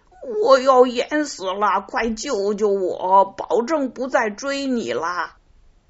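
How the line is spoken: Barking. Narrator (Chinese): 他汪汪叫着说

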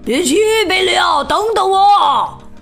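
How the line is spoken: Shouting from behind. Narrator (Chinese): 卢兹佩洛在后面大喊

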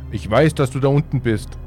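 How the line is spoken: Calling in grandfather's voice. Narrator (German): rief Jock mit der Stimme meines Großvaters

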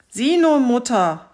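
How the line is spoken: Called out. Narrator (German): rief der Zarewitsch

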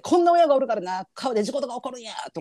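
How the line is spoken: Shouting. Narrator (Japanese): とか言ってさもう叫びながら

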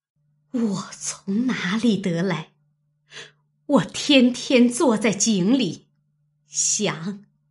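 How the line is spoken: Trembling tearful voice. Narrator (Chinese): 王夫人越发泪如雨下，颤声说道

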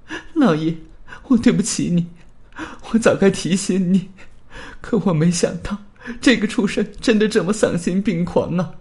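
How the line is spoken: Wailing loudly. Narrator (Chinese): 麦克夫人却放声大哭

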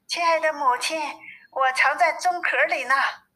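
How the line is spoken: Soft answer. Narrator (Chinese): 有一个声音轻轻的回答

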